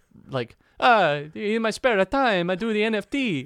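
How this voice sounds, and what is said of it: Put-on Italian accent. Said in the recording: “I'm Italian. I can do that accent.”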